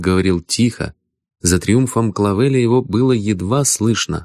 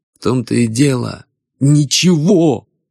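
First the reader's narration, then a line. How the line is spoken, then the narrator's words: Shout that breaks off. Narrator (Russian): крикнул Бородин и осекся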